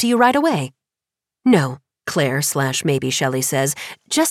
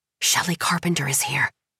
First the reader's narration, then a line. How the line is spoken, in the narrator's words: Lisbeth whispers